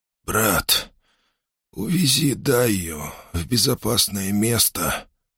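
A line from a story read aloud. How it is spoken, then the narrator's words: Hoarse whisper. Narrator (Russian): хрипло прошептал Махди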